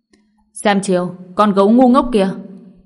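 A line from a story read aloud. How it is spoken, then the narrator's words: Enraged loud shout. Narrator (Vietnamese): Thái La tựa hồ như không chịu đựng nổi, quát lớn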